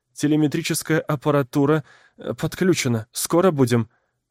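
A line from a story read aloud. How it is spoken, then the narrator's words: Hurried, into headset. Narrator (Russian): торопливо произнесла она в гарнитуру для связи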